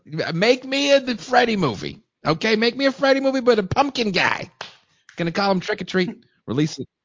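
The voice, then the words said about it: Impression of Dino De Laurentiis. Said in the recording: “I like your impersonation.”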